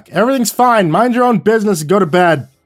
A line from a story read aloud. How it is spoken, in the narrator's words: I hollered back